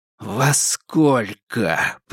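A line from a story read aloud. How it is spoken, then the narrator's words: Hiss. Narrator (Russian): прошипел Никита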